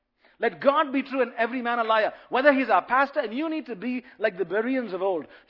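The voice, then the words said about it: Speaker's own noticeable accent. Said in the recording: “a funny accent”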